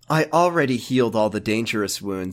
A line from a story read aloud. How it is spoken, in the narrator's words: Jesse said calmly